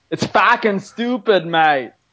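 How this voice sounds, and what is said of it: Attempted Boston accent sounding Australian. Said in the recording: “give us your best Boston accent ... That's Australian ... That's an Australian”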